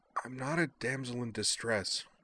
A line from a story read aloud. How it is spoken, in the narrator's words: Utena protested weakly